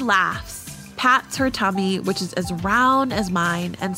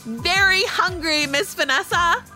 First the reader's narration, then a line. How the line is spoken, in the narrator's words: I yell with complete joy